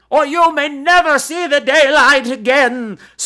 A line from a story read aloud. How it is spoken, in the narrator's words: screamed the old woman